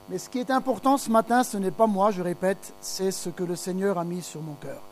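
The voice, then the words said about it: Slight foreign accent. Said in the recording (French): “mon petit accent”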